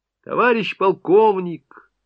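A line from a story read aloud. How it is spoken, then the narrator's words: Shouting out. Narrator (Russian): выкрикнул Голубев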